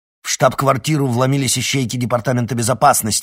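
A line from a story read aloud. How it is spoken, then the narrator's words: Barking. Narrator (Russian): рявкнул Эдуард Кривоносов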